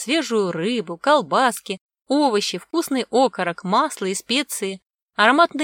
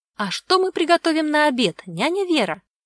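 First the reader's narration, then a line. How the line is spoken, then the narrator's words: Childlike babbling. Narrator (Russian): пролепетала Ладомира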